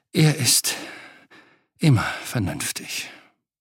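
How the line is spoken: Sighing. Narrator (German): seufzte Angua

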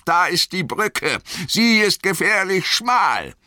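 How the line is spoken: Called out. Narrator (German): rief Gandalf

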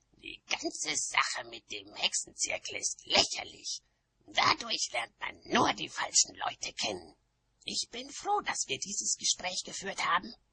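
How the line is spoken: Hissing. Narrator (German): fauchte Nanny Ork

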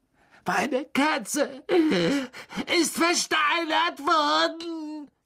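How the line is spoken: Shrieked. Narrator (German): kreischte er

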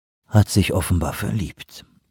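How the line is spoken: Sighing. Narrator (German): seufzte

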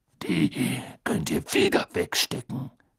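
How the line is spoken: Growled. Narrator (German): knurrte er

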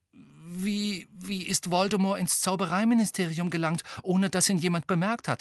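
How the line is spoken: Rather anxious voice. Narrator (German): sagte Hermine mit ziemlich ängstlicher Stimme

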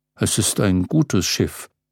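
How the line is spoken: Murmured. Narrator (German): murmelte er

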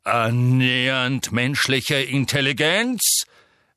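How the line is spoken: Repeated, plain. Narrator (German): wiederholte Magorian

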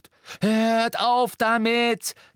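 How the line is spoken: Shriek. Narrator (German): kreischte Hermine

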